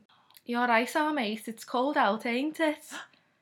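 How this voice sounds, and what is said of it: Attempted Scouse accent. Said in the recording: “I couldn't nail a Scouse accent.”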